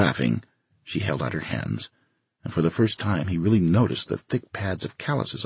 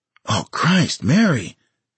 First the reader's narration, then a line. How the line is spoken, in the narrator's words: he said, his voice hoarse